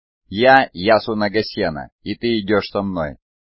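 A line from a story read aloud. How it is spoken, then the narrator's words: Plain. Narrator (Russian): сказал мечник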